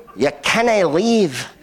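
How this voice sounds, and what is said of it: Put-on Scottish accent. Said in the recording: “That was my Scottish accent.”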